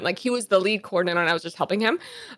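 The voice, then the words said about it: Talking very fast. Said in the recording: “I'm talking super fast.”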